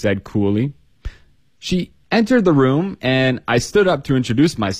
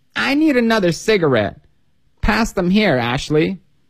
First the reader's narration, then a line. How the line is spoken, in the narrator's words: whined Natalie